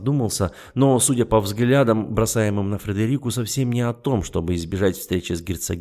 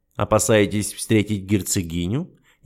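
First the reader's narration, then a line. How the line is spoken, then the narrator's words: Snide remark. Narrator (Russian): ехидно заметил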